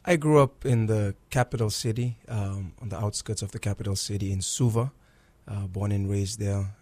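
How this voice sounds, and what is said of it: Fijian accent. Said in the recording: “I love your accent. ... Where did you grow up in Fiji?”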